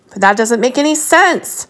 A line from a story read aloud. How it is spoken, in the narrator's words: Lestrade yelled at Sherlock's back